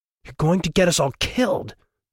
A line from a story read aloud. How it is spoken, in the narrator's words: Andrea spat